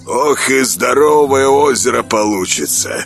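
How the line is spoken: Snort. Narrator (Russian): хмыкнул он

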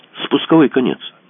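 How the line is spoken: Plain. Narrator (Russian): сказал Мазур

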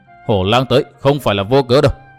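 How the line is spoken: Sneering. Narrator (Vietnamese): Tốc Đào cười nhạt

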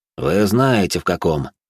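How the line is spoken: Calm reply. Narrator (Russian): спокойно ответил де Бордо

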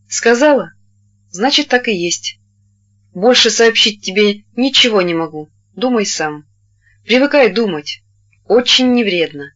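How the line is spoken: Calm. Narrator (Russian): он спокойно ответил

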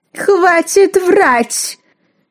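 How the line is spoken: Shrill howl. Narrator (Russian): снова взвыла циркулярная пила

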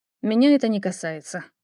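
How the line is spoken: Prince's cold reply. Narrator (Russian): холодно отозвался принц

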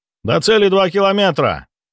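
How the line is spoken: Navigator's report. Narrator (Russian): доложил штурман

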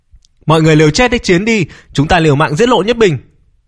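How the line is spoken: Shouting. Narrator (Vietnamese): Viên Kim Hoa thế thế quát lên

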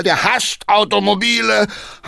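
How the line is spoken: Called out. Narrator (German): rief Hackendahl

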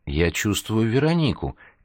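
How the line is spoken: Quiet. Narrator (Russian): тихо сообщил он бармену

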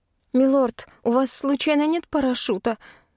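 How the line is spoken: Trembling question. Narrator (Russian): дрожащим голосом поинтересовалась

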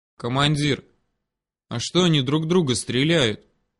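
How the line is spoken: Whispered question. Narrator (Russian): шепотом переспросил Ёж

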